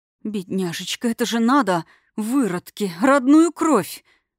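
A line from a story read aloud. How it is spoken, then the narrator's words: Bitter, shocked wheeze. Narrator (Russian): Горько просипела потрясенная Алира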